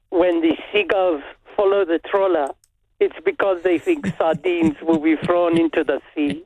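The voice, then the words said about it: Imitates another person's voice with accent. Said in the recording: “accent ... That was Eric Cantona”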